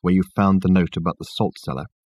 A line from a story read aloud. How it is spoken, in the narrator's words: he asked Richard in a low voice